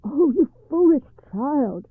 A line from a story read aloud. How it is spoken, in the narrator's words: cried her mother in alarm